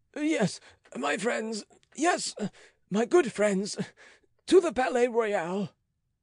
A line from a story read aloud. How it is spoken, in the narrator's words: gasped this wretch